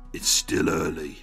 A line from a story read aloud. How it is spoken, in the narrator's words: the looming lump growls